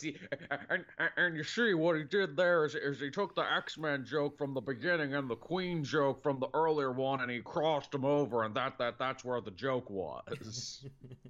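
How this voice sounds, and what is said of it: Imitates another person's voice. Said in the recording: “Thanks, John Madden ... my shitty impression of Frank Caliendo's good impression of John Madden”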